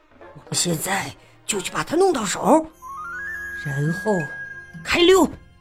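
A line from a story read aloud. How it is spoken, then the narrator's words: Quiet voice. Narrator (Chinese): 小声说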